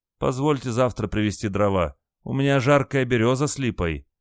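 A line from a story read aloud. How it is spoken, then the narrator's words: Pitiful asking voice. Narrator (Russian): жалостливым голосом спросил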